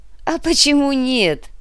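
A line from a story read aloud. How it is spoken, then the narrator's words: Laughing. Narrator (Russian): рассмеялся Борис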